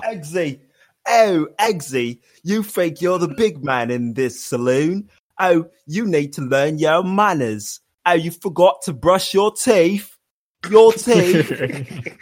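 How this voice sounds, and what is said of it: Put-on trashy British accent. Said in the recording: “Now switch to British trash, Kingsman.”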